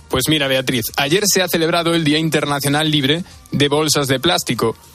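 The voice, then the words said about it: Galician Spanish accent. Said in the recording (Spanish): “con ese acento mm, de Sevilla no eres, nos vienes desde Galicia por lo menos, ¿no?”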